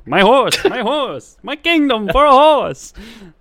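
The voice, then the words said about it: Mock Shakespearean accent. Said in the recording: “the accent you put on that one. That was good ... that's a Bill Shakespeare accent ... a Billy Shakes accent”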